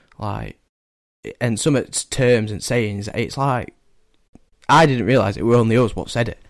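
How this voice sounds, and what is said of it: Distinctive Northern English accent. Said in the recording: “our accent is so distinguished ... everybody picks straight away up from my accent”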